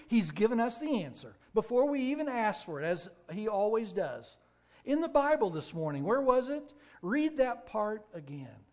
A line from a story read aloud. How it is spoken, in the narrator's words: said excitedly